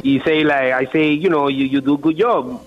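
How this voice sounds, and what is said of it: Speaks English with a foreign accent. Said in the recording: “he's making fun of my accent”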